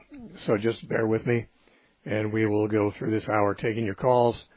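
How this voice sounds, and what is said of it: Worn-out voice that may crack. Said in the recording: “I've got a problem with my voice ... my voice will probably crack a little bit ... my voice gets worn out sometimes”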